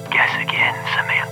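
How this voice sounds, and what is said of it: Sexy, seductive caller voice. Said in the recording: “you have a sexy voice”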